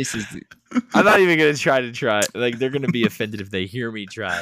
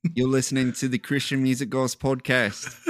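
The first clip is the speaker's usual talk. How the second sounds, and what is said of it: Poor put-on Australian accent. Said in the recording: “I can't even do an Australian accent ... this is terrible”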